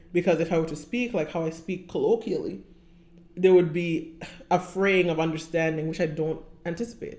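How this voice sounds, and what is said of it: Mild accent, still noticeable. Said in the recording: “I'm pretty sure people still hear that I have an accent, but it's not so hard that you can't understand what I'm saying”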